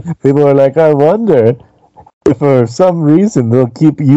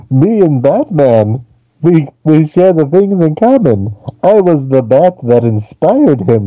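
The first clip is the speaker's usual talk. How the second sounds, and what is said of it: Count Chocula Transylvanian vampire voice. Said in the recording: “his Count Chocula impression ... I can hear the voice already starting to go into Transylvania mode”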